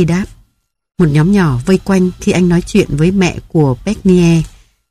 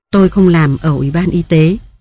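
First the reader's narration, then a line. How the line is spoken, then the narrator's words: Plain. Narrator (Vietnamese): Bucky đáp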